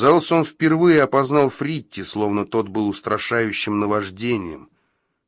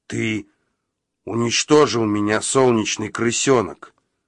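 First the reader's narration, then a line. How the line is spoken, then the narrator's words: Male growl. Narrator (Russian): прорычал он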